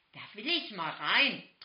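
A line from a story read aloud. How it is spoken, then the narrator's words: Excited urging. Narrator (German): drängelte Mia aufgeregt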